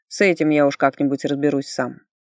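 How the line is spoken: Cold assurance. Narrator (Russian): холодно заверил его дознаватель

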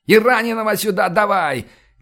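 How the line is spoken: Yelling, losing control. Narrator (Russian): не выдержав, заорал

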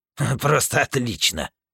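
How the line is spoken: Grumbling. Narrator (Russian): проворчал злыдень

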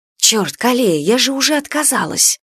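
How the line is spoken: Irritated whisper. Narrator (Russian): послышался раздраженный шепот

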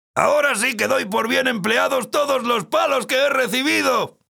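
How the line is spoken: Shouting. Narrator (Spanish): gritaba

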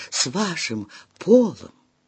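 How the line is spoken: Barely audible. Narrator (Russian): Тетя Сибил едва слышно вымолвила

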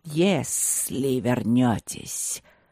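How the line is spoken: Ominous hiss, not angry. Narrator (Russian): прошипел змей с нехорошим намеком, но без злости

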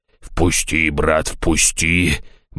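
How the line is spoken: Monster muttering. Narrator (Russian): бормотало чудовище

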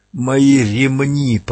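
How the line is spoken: Hoarse rasp. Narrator (Russian): прохрипел стрелок

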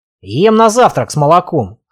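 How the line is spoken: Snort. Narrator (Russian): хмыкнул Славик

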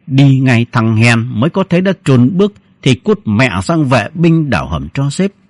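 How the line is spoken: Low hiss. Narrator (Vietnamese): Sên rít khẽ

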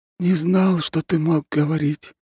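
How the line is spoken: Sad sigh. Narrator (Russian): печально вздохнул он

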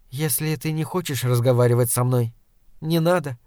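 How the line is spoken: Calm. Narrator (Russian): спокойно сказала она

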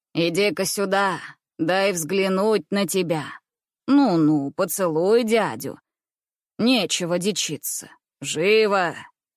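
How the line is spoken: Playful, joking voice. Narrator (Russian): Шутливым голосом говорил он

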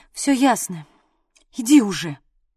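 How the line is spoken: Nervous exhale. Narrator (Russian): нервно выдохнула я

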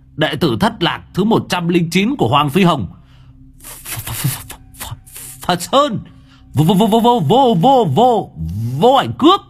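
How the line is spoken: Shouting. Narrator (Vietnamese): Long đầu đất hét

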